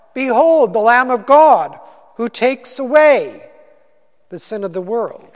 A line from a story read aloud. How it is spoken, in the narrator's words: John the Baptist … he shouted out